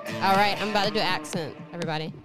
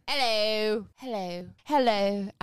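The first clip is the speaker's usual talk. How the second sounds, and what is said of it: Put-on Cockney accent. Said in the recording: “Now do your accent... That's Cockney.”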